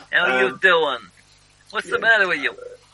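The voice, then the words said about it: Put-on American accent. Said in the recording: “a very distinctive Midwestern American accent ... my expert depiction of a Midwestern American accent ... That's Midwest, isn't it? ... Bronx.”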